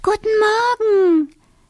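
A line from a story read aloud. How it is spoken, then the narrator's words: Cheerful child's greeting. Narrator (German): begrüßt der kleine Wassermann seine Eltern fröhlich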